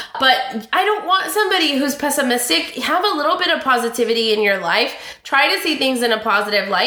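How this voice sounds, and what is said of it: Usual voice. Nothing is said of it.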